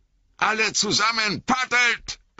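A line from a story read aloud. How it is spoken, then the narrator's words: Bellowing. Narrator (German): brüllte Boromir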